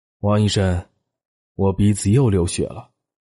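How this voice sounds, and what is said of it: Low, deep voice. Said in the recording (Chinese): “用低沉的声音说”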